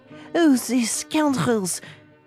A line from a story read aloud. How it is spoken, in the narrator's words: cried Passepartout, who could not repress his indignation